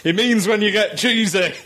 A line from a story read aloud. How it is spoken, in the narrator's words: the class jock shouted up